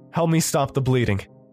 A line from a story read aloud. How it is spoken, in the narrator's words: Oliver shouted towards me